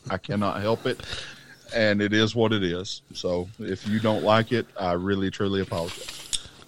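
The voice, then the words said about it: Southern American accent. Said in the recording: “my southern accent ... I sound like a combination of John Coffey from The Green Mile and Forrest Gump”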